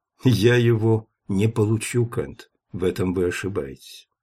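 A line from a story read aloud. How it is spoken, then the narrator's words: Calm warning. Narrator (Russian): спокойно предупредил Гроссвенф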